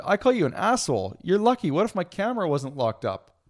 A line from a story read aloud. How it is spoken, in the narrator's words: Mans kept laughing